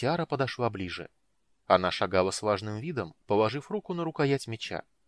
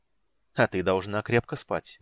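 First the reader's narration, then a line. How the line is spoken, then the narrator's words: Grim, smiling tone. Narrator (Russian): мрачно улыбнулся Рейстлин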